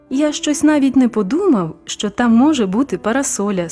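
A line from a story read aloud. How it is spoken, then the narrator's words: Plain. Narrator (Ukrainian): сказав він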